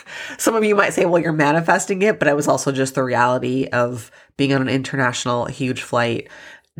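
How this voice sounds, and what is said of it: Slightly nasal, congested voice. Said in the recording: “You can probably hear my voice sounds a little nasally. I'm getting over a cold”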